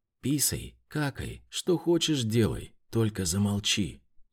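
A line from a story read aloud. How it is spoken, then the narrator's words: Barely audible exhale. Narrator (Russian): еле слышно выдохнула мамка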